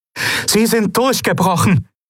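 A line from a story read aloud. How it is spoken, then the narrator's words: Calling to others. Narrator (German): rief Aylan den anderen zu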